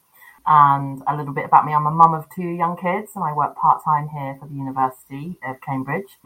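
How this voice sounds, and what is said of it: British accent. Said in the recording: “my accent is British”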